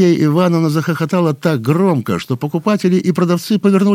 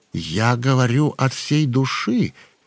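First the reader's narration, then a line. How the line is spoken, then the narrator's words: Plain. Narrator (Russian): сказал он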